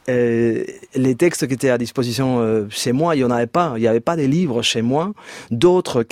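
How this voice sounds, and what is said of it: Spanish accent speaking French. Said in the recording (French): “En Espagne? ... Oui, en Espagne, en fait, comme vous entendez par mon accent.”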